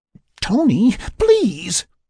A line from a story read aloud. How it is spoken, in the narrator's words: Sarah pleaded from under the sleep sack